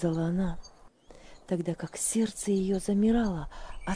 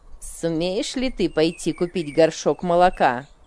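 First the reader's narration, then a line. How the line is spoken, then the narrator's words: Rude question. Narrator (Russian): грубо спросила она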